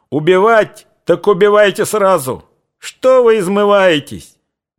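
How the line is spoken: Man shouting. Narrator (Russian): Высокий, бравый красногвардеец крикнул

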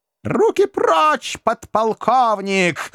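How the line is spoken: Woman's shriek. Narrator (Russian): взвизгнула прелестница

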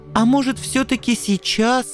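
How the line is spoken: Pleading. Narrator (Russian): взмолился Анцифер

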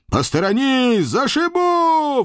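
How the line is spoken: Manic roar. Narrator (Russian): взревел я, изо всех сил изображая из себя полного психа в эпилептическом припадке

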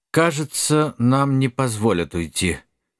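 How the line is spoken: Dull muffled mutter. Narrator (Russian): глухо пробормотал Нед Гамильтон

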